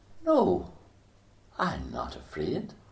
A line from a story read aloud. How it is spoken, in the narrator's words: softly she said